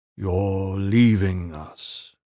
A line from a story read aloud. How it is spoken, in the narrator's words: Iron Fist said slowly